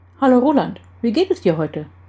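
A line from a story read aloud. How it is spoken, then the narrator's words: Cheerful greeting. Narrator (German): begrüßte Jan fröhlich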